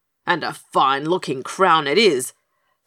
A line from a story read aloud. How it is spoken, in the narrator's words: snapped the king